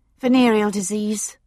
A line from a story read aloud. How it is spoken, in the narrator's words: she blurted out